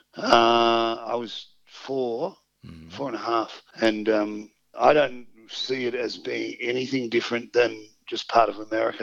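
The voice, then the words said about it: Australian accent. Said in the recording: “putting on an Australian accent ... you do one very well now”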